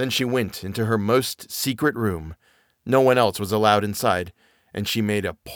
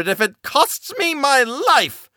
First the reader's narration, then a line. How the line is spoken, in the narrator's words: shouted